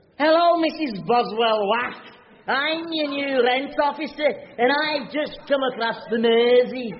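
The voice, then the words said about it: Exaggerated comedy Liverpool accent. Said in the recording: “it's not a comedy Liverpool accent, is it? You know, full of extended vowels and swooping inflections. Show her.”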